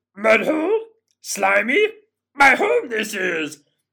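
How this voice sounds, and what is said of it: Yoda impression, creaky character voice. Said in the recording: “could do a pretty good Yoda impression ... Perfect.”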